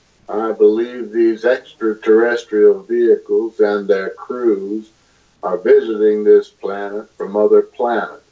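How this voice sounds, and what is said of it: Imitates an astronaut's voice. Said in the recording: “I'm impersonating these different astronauts. I worked hard on getting how they talk”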